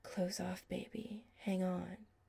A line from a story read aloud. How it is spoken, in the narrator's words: he whispered against Chris's lips